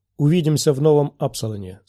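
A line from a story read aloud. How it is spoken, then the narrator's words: Plain. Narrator (Russian): сказал он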